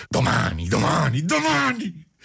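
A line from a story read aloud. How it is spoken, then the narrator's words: Madman's furious, desperate scream. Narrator (Italian): urlò il pazzo, entrando in una subita furia tutta mescolata di stizza e di disperazione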